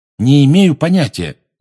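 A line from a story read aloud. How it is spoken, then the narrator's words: Loud. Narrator (Russian): громко сказал Гарри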